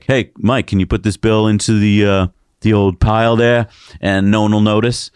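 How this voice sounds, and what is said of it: Put-on Boston accent. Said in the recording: “I don't know why they have a Boston accent in Oklahoma.”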